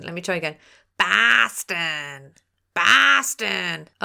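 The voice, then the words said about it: Put-on Boston accent. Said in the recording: “Now that's a good Boston accent... Oh, I'm an impersonating wizard”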